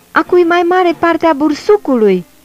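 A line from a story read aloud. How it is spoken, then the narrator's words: Angry shout. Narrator (Romanian): a strigat jderul supărat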